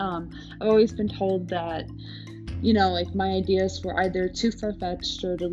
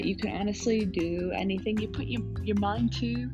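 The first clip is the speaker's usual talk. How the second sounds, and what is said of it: Weird put-on accent. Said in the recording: “I just said that in like a weird accent.”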